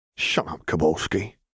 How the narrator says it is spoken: another grumbled

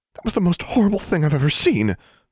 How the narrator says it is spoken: Darla exclaimed

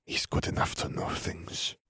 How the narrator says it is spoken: murmured

